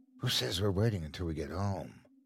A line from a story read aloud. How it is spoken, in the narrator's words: whispered into his ear